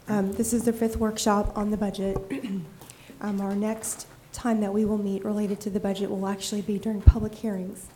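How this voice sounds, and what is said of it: Shaky voice. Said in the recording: “My voice is a little shaky. I have a cold.”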